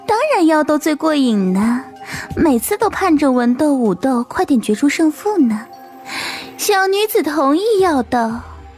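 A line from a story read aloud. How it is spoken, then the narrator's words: Coquettish laugh. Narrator (Chinese): 花枝百艳仙主媚笑着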